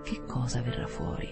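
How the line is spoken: Murmured. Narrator (Italian): il privato cittadino Heath mormorò

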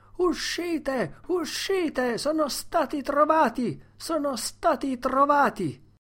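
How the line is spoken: Frenzied crowd yelling. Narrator (Italian): gente vestita a metà, che urlava in preda alla frenesia

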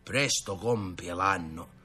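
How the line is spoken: Uncle grumbling. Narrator (Italian): aggiungeva lo zio Crocifisso quando era solo a brontolare con compare Tino

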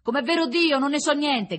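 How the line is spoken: Prisoner shouting from afar. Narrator (Italian): gridava la detenuta dall'altra parte

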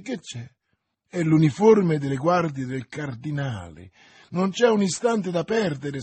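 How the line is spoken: Exclamation. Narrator (Italian): esclamò Milady

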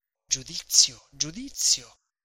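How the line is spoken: Notary whispering. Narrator (Italian): gli sussurrava il notaio dietro le spalle

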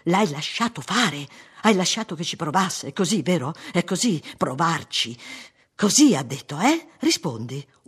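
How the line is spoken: Shout. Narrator (Italian): urlò

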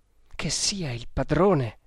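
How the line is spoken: Murmured. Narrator (Italian): mormorò

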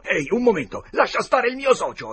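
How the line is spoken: Exclamation. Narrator (Italian): Potter esclamò

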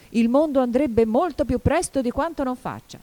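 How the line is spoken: Hoarse shout. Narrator (Italian): esclamò la duchessa con un rauco grido

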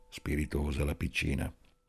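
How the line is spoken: Hoarse whisper. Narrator (Italian): Amelia bisbigliò con la sua voce rauca

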